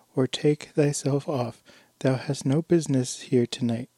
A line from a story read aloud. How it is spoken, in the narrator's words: cried the boy